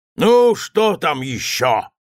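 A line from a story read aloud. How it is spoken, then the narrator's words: Shout. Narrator (Russian): закричал он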